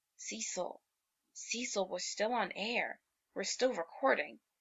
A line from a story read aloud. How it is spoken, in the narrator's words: he hisses